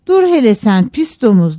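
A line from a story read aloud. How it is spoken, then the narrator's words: Shouting. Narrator (Turkish): diye bağırdı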